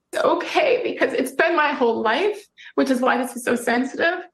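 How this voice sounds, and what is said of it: Crying, choked-up voice. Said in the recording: “She's crying now. ... She's getting choked up.”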